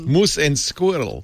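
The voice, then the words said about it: Boris-style cartoon Russian accent. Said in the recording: “my accent comes from, I have to admit, Rocky and Bullwinkle. I'm Boris, Natasha and Boris.”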